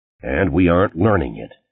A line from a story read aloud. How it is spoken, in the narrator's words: Morton said gloomily